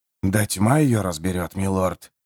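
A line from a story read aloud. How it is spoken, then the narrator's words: Grumbling. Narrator (Russian): буркнул Джимис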